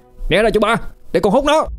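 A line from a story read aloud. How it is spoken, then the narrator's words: Shouting children. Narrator (Vietnamese): Tụi nó hét lên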